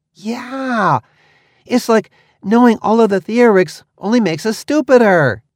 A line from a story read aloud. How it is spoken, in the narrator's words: he laughed excitedly